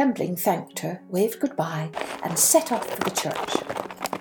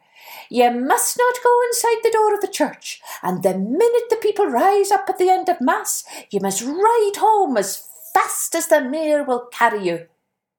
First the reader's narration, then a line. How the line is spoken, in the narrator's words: the henwife called out to her